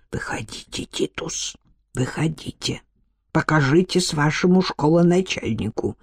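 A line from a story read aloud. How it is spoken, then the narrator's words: Strangled whisper. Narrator (Russian): Кличбор … сдавленно прошептал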